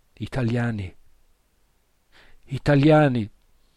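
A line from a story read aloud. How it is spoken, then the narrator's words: Desperate repeated cry. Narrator (Italian): ripeteva con voce disperata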